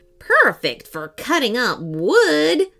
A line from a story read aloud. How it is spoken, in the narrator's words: screeched the skeleton